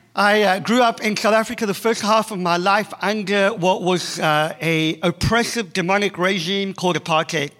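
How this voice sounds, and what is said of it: South African accent. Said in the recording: “the accent is not Australian, it is South African”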